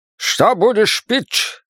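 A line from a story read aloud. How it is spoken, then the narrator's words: Barked. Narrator (Russian): рявкнул он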